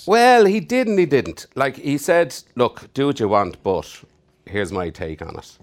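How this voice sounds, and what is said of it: Irish accent. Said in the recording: “If you don't recognize the accent, I'm Irish.”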